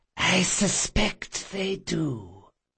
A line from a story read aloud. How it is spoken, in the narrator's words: came a harsh feminine whisper from the service entrance